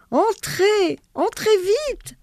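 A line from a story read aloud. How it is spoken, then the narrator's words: Shout. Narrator (French): leur crie-t-il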